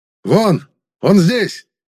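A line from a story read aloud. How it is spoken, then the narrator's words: Shouted. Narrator (Russian): прокричал ближайший ко мне магистр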